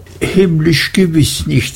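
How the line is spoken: Laughing. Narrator (German): sagte sie lachend

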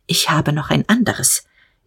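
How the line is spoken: Short and quiet. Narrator (German): sagte er, kurz und leise

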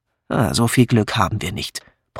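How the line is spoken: Grumbling mutter. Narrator (German): brummte Patrick

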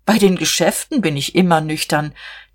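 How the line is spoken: Laughing. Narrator (German): lachte auch

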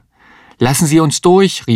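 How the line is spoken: Called out. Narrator (German): rief Mario

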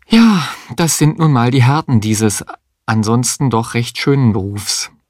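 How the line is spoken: Sighing remark. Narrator (German): seufzend bemerkte

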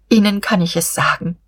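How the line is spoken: Sighing. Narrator (German): seufzte

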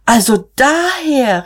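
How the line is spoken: Called out. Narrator (German): rief Magda

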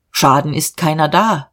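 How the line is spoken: Calm. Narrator (German): sagte ruhig

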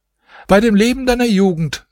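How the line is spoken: Called out. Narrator (German): rief die Wirtschafterin

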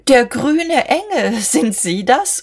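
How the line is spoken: Laughing mockingly. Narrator (German): sie lachte ihm ins Gesicht

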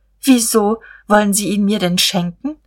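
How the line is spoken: Stammering. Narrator (German): Er stammelte

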